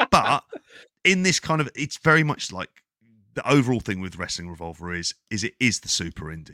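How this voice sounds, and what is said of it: Usual voice. Nothing is said of it.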